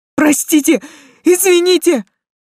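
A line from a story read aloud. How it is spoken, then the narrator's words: Shouted apology. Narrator (Russian): выкрикнуть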